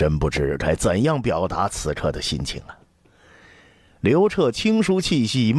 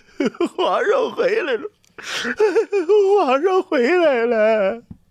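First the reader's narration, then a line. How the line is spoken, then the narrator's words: Crying voice. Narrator (Chinese): 哭声言道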